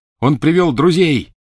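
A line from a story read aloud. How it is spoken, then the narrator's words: Shout. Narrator (Russian): крикнул Гарри остальным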